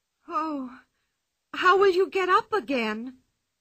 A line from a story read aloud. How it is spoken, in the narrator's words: cried Anika